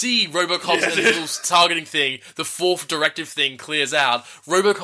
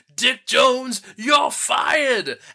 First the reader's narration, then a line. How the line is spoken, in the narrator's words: the old man just kind of like super triumphantly, just kind of like